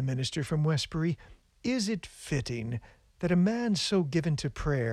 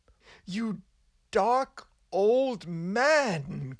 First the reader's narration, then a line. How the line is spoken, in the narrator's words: cried the frightened young minister